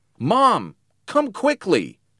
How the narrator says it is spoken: shouted

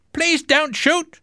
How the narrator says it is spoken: one sailor shouted

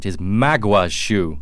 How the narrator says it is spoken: said angrily

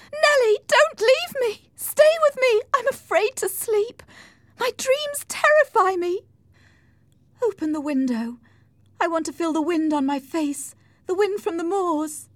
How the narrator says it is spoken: Kathy screamed

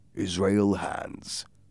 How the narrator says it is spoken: Silver said in a quiet voice

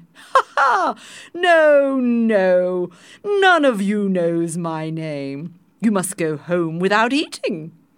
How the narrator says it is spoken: the king finally said, and he and his 10 wives all laughed very loudly

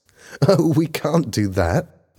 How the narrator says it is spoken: laughed Helen

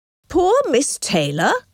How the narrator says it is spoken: cried Mr

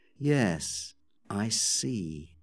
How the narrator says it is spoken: said Amelia quietly

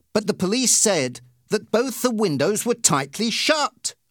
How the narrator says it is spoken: I cried

